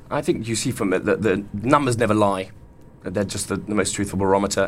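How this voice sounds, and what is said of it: Noticeable regional accent. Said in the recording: “it's obvious from your accent where you're from”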